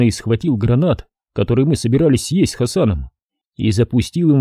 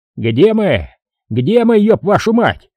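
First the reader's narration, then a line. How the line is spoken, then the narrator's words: Shouting. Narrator (Russian): кричал Ротный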